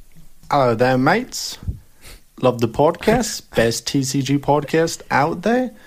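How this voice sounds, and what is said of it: Pretty good put-on accent. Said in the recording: “That's a pretty good accent... That was pretty good... You had us fooled there.”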